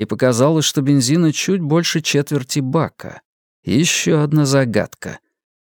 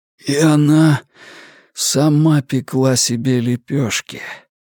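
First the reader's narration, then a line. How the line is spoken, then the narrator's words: Hoarse rasp. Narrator (Russian): прохрипел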